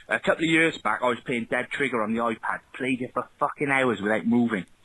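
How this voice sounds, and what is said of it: Twangy Welsh accent. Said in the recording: “He's got the kind of twangy ... I think he confirmed he's from Wales”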